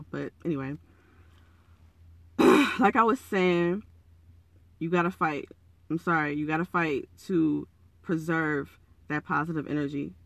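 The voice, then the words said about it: Raspy, croaky morning voice. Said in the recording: “my voice sounds raspy. It's early. I haven't had my tea ... I sound like a frog”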